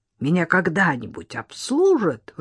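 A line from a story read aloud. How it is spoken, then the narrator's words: Indignant older woman. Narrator (Russian): возмущенно проговорила женщина лет 60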